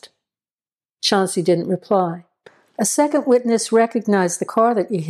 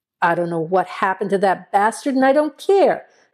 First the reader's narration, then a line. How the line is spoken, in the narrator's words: Chauncey exclaimed, his voice edged with anger